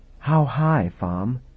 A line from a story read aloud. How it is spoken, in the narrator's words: Ravna said softly